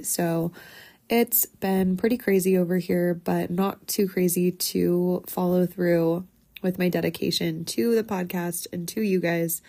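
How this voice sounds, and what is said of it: Sick-sounding, affected voice. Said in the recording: “excuse my voice. I was sick last weekend”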